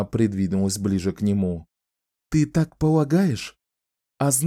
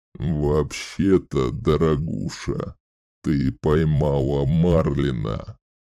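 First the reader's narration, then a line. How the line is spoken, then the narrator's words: Creaking voice. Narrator (Russian): произнес он скрижащущим голосом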